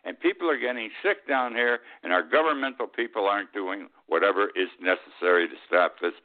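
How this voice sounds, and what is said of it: Angry voice. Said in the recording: “my voice sounds, it has anger”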